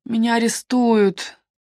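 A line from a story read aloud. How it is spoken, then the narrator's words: Groaning. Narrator (Russian): простонал Питер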